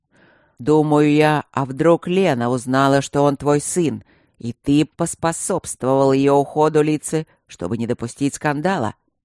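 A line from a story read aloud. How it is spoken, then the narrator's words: Harsh roar. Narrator (Russian): Очень жестко проревел Гюнтер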